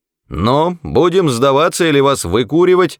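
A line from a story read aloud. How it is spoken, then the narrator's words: Shouted. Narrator (Russian): закричал один из полицейских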